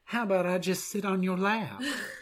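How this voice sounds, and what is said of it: Put-on Southern US accent. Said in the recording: “Is that your southern accent? Can we hear that again?”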